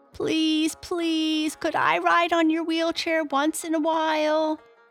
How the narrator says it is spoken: begged Stubdan

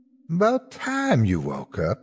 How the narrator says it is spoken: Beulah said

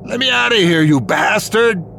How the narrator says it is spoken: screaming

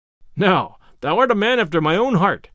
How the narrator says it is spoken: cried the cook right heartily

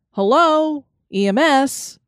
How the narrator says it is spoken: Dean called out into the void

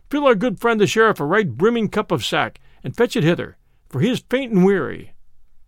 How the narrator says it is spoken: cried Robin

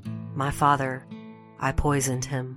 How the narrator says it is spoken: Marie whispered

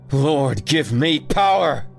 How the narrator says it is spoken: he cried

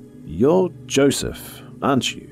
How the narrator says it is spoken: slowly walked towards our killer, hands in the air, leveled with my shoulders, and asked

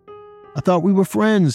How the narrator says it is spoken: he shouted

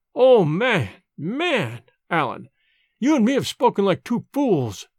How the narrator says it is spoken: cried

